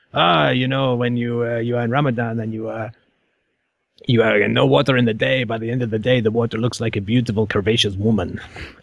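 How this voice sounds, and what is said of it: Generic foreign accent, attempted Moroccan. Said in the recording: “I don't know what accent that is. It's generic foreign, and I apologize to anyone who knows anything about a Moroccan accent. That was not even close.”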